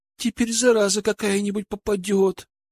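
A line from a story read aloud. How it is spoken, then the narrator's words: Whine. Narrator (Russian): захныкала Алена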